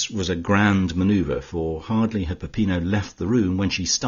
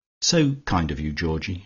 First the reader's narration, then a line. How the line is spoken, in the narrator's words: she said